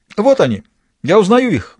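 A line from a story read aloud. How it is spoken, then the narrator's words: Exclaimed. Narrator (Russian): воскликнул сыщик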